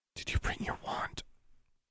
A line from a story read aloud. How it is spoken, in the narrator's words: asking in a whisper